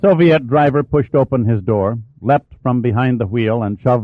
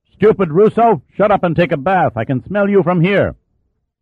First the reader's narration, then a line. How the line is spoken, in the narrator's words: Figueroa began yelling at the Russians